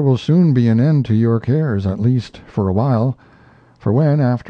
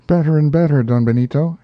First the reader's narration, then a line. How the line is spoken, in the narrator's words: he cried